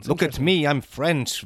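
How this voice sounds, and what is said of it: Bad put-on French accent. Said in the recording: “This is the level of bad accents ... Oh, the world of bad accents”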